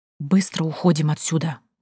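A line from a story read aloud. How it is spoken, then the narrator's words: Frightened hiss. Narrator (Russian): прошипела я, помирая от страха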